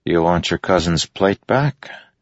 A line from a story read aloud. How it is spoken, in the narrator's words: Adolin asked quietly